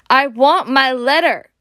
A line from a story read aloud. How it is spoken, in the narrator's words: he shouted